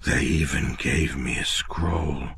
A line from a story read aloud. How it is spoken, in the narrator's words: Quail mumbled, of gratitude